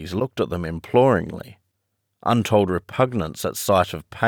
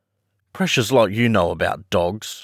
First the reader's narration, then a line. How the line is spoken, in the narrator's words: her brother sneered